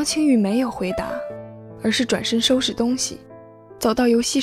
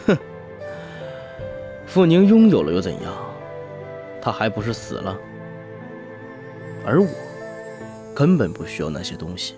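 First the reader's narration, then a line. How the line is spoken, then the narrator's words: Cold sneer. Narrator (Chinese): 杜若明冷笑道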